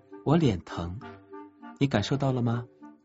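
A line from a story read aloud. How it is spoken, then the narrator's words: Soft and gentle. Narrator (Chinese): 杨晶轻声细语地说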